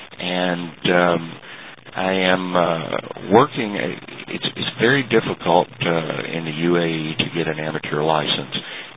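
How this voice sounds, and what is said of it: Texan American accent. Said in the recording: “as most people could pick up from the accent, from Texas”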